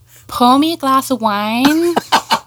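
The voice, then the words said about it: Put-on Midwestern American accent. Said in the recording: “let's hear your American ... They revert to a Midwestern American accent.”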